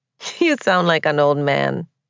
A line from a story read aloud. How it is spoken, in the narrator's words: she said teasingly